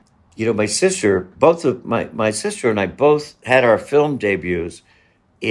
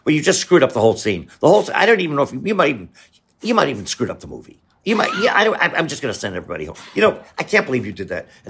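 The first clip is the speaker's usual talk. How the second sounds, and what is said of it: Martin Scorsese impression. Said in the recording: “great Scorsese impression”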